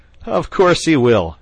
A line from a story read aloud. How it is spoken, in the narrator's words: chuckled the otter